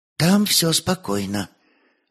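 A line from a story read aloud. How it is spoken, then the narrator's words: Quiet answer. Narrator (Russian): ответил негромко Муха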